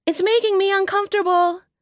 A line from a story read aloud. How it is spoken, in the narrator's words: she yelled from the top of the staircase